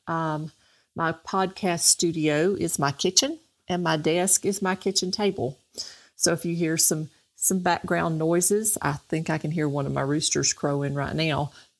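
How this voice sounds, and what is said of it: Southern American accent. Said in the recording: “Southern, if you can't tell by the accent.”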